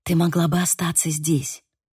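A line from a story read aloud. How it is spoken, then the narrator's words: Whisper. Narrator (Russian): прошептала Ариса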